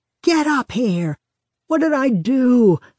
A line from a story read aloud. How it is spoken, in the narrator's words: he used to shout from the top of the stairs